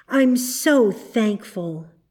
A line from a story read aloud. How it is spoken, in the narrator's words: she said at last, with a great sigh